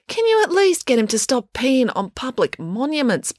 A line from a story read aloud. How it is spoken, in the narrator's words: pleaded Finn